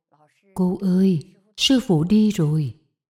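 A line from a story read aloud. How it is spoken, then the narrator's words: Soft murmur. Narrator (Vietnamese): nói khẽ một câu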